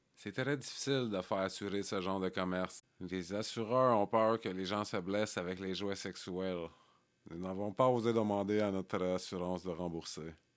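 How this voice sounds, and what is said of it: Put-on accent while quoting. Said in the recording (French): “Je sais pas pourquoi je prends un accent, il n'y avait pas d'accent”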